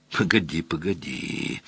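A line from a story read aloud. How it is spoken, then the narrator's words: Drawn-out, musing. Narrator (Russian): протянул Мазур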